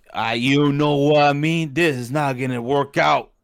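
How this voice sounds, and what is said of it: Imitates another person's voice. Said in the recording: “That was a really good Rick Ross impersonation... That was really good.”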